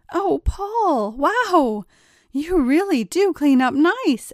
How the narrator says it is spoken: exclaimed Angela

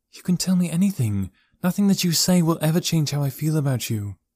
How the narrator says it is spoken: she said

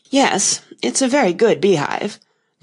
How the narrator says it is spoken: the knight said in a discontented tone

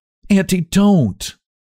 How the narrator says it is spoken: exclaimed Theodora impulsively

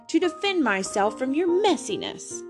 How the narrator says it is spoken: he yelled

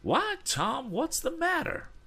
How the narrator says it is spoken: exclaimed Mrs

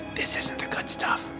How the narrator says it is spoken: One kid whispered to his buddy

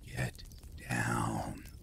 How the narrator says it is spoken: I heard a man whisper

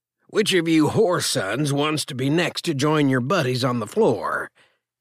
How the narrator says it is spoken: growled

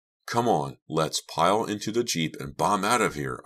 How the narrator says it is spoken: cried

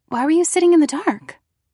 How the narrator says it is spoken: I blurted out

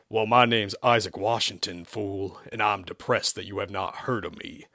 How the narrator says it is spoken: the voice shot back in a southern accent as the funk music continued to play, but at a much lower tone, much more reasonable than before

